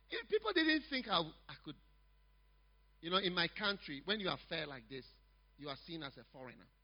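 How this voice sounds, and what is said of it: Foreign-sounding accent. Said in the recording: “My accent, I'm not really from here.”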